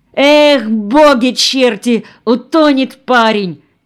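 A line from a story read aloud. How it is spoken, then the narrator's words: Shouted. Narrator (Russian): крикнул кто-то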